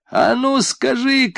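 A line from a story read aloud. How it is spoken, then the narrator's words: Shout. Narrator (Russian): крикнул он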